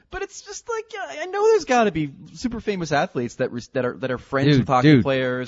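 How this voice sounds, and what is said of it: Canadian accent. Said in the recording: “Right now, you sound really Canadian. Right now, you sound so Canadian.”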